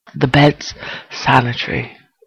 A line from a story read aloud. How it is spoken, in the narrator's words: Sherlock gasps